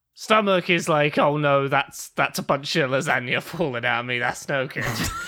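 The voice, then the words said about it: British accent. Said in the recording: “I've never heard someone say lasagna in a British accent. And it was revelatory.”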